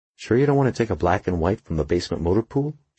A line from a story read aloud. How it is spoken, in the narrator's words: she asked